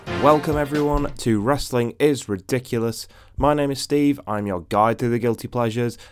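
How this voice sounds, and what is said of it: Voice sounds congested from a cold. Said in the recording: “I've got a bit of a cold, my throat isn't fantastic”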